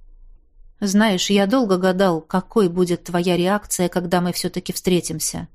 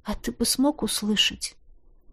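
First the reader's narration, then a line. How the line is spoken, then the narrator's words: Quiet question. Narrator (Russian): тихо спросила я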